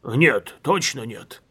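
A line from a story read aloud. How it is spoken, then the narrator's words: Old man muttering. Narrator (Russian): пробормотал старый генерал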